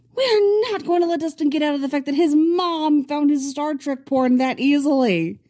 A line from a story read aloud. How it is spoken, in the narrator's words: Mike shrieks